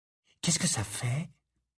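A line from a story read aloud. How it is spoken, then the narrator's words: Murmured. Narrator (French): murmura Hermione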